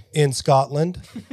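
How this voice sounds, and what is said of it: Weak attempt at Scottish accent. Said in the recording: “I could do a Scottish. I can do that. ... He's not really good.”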